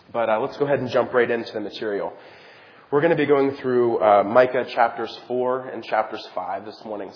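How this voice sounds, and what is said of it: Raspy, strained voice. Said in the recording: “I'm rapidly losing my voice ... my raspy voice this morning”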